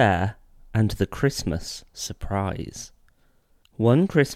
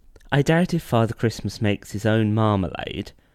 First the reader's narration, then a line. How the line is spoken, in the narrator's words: said Mrs